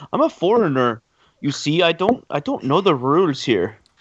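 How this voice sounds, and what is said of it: Put-on foreign accent. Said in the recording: “Once again, a perfect accent.”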